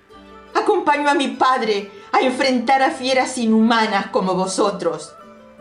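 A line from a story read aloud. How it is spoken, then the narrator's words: Shouted in fury. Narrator (Spanish): gritó, a causa de la explosión de furia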